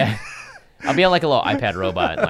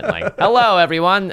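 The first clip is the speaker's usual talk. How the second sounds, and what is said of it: Robotic voice. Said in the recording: “talking like a robot”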